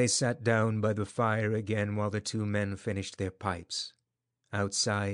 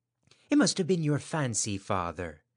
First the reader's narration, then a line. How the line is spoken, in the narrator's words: said his wife, regarding him anxiously